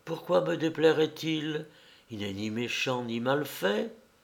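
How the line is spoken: Weak voice. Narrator (French): Mais elle dit d'une voix faible

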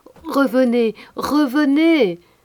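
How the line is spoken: Group shouting. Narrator (French): tous, Pierre, Jacques, Gaspard, leur criaient aussi de revenir

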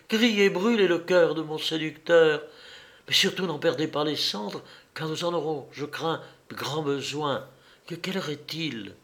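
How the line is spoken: Exclaimed. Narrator (French): s'écria Polly

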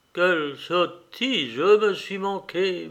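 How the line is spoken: Murmured. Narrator (French): murmura-t-il

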